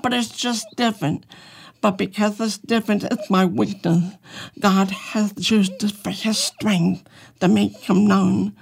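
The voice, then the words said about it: Unusual foreign-sounding accent. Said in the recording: “my voice is different. I talk funny ... You really have an accent ... claimed by the Germans to be German ... claimed by the British to be British”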